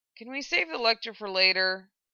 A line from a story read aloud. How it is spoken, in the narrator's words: he asked